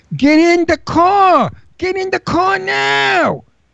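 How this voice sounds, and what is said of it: Screamed Brooklyn accent. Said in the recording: “I did it with a Brooklyn accent ... And I kept screaming it.”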